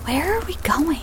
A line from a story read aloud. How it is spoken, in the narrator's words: Abby whispered quietly to Beth